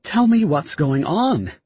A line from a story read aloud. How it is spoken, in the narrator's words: she pleaded